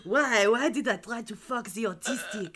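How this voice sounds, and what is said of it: Poor put-on French accent. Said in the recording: “Oh, I'm so sorry to the French. ... butchering your accent. Usually I can do a fairly good French accent, but once again, my brain is fucking soup today.”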